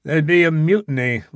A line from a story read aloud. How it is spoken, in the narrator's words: laughed Norden